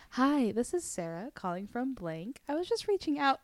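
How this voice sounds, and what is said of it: Polite professional phone voice. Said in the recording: “phone voice at work ... So nice”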